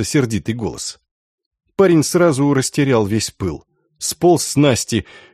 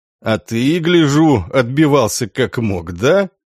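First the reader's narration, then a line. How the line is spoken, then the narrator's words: Mocking male question. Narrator (Russian): насмешливо спросил высокий мужчина лет 40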